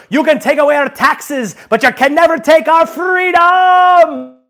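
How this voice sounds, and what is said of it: Weak attempted Scottish accent. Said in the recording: “That's my Irish accent. Or Scottish? ... Sorry, I don't do accents.”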